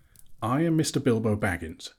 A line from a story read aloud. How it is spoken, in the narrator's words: he answered